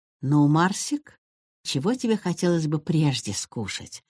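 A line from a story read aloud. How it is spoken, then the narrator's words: Gentle grandmotherly question. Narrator (Russian): ласково спросила бабушка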